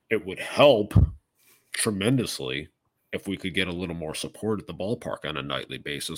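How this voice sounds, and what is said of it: Imitates another person's voice. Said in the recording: “great impression there”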